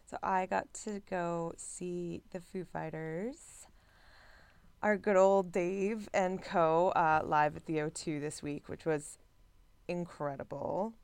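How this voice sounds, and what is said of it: Slightly rough voice. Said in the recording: “My voice is a little rough”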